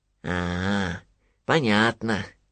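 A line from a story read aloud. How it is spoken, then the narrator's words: Thoughtful drawl. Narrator (Russian): задумчиво протянул Винни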